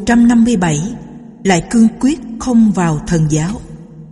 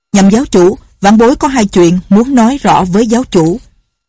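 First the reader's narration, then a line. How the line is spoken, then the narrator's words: Loud, resolute. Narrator (Vietnamese): Lệnh Hồ Xung lớn tiếng nói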